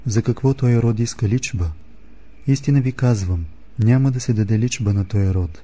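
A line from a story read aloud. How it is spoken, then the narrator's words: Deep sigh, then speaking. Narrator (Bulgarian): въздъхна дълбоко и рече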